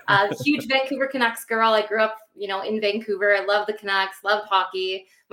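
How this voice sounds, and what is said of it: Canadian accent. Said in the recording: “I'm from Canada. I'm sure a lot of people can hear my accent.”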